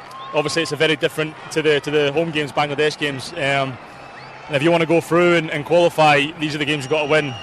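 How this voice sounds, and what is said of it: Australian Wollongong accent. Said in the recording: “It's a good Wollongong accent, isn't it? ... I love it. It's a beautiful accent.”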